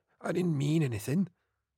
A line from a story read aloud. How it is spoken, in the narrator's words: Dewar began hoarsely, wincing as he plucked out the thorns he had fallen on